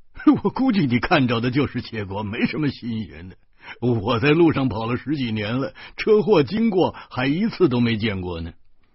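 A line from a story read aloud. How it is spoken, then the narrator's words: Laughing. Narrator (Chinese): 徐大光笑着说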